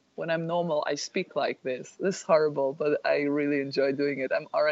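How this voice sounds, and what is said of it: Usual voice. Nothing is said of it.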